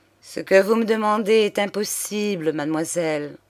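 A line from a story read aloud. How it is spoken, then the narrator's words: Faint voice. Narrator (French): dit-il d'une voix éteinte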